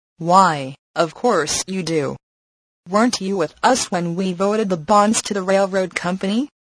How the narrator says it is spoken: asked Edwards

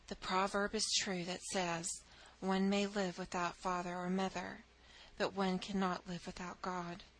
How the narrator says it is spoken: Matrona sighed and said

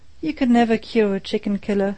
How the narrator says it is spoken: Judge Scott shook his head sadly

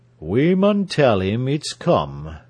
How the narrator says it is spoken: he said slowly

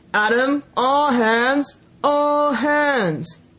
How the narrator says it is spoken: roared in a voice of thunder

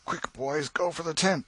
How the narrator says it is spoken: exclaimed Tom

